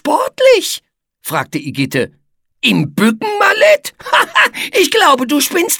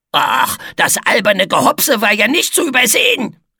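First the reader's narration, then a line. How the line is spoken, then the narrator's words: Grunting. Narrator (German): grunzte Etze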